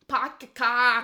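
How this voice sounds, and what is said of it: Mock Boston accent. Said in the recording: “Boston or something like that? ... Boston, yeah. And that's why they sound. ... Have that accent”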